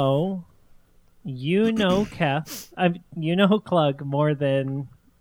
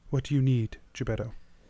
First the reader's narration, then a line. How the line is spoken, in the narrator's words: quietly says